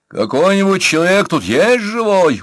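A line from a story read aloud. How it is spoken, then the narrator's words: Uncertain shout. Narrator (Russian): уже неуверенно крикнул Пашкевич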